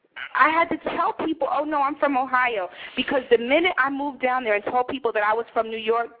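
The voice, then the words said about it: Strong New York accent. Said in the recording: “my accent is very New York”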